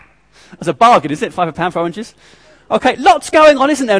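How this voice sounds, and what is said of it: Usual voice. Nothing is said of it.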